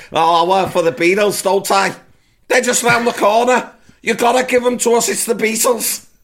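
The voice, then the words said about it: Put-on Scouse accent. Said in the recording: “in his Scouse accent”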